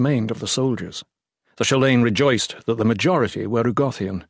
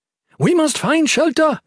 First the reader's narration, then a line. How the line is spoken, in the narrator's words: she screamed in the mounting wind